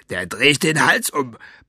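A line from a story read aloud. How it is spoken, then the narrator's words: Roaring. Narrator (German): brüllte er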